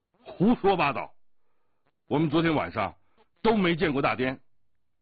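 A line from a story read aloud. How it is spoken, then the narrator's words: Angry shout. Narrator (Chinese): 降龙怒喝道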